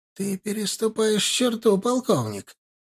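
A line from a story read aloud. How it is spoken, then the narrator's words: Hissed. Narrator (Russian): прошипел посол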